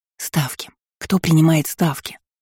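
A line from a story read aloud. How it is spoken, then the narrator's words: Hissed into ear. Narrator (Russian): Зашипела я на ухо Карху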